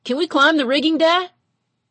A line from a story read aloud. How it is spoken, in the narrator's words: Frankie and Jerome hollered from the wharf below